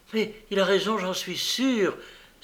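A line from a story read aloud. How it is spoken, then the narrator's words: Girl's exclamation. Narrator (French): s'écria la jeune fille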